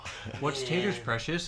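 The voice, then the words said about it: Smeagol character voice impression. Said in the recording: “do a decent Smeagol impression ... Ooh, that's pretty good.”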